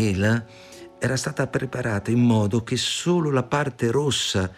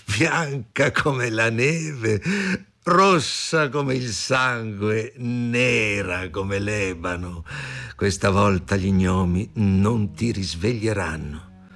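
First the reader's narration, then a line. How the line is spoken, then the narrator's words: Cruel loud laughter. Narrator (Italian): La regina ridendo rumorosamente e disse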